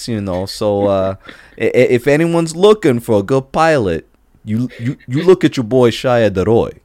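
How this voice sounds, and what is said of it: Put-on general Northeastern US accent. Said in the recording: “I'm still trying to perfect that weird accent ... do you want Jersey, do you want Boston, and they're like, just general Northeastern”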